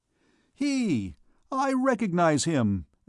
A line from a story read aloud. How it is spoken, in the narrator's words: exclaimed Jehan